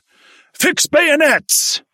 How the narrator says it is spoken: Sergeant Gunnison, the platoon sergeant, bellowed

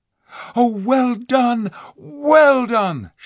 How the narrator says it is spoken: shouted Jill

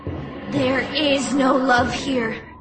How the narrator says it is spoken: I muttered

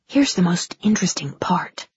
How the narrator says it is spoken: Glenda whispered

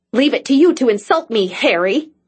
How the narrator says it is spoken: she snapped

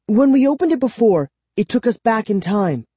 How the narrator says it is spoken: she said excitedly

